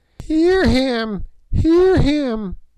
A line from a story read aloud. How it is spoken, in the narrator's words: piped Gagool